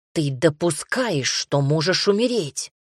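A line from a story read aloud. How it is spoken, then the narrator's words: Angry hiss. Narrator (Russian): зло прошипел Рами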